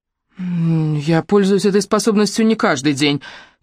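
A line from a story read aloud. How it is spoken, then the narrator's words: Hurried speech. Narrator (Russian): торопливо сказала я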